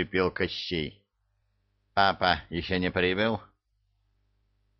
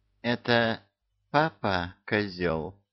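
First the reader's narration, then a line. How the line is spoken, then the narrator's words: Insinuating witch's question. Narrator (Russian): вкрадчиво поинтересовалась ведьма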